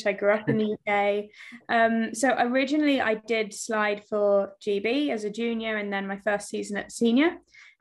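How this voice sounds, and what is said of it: British accent. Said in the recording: “I obviously clearly sound very British.”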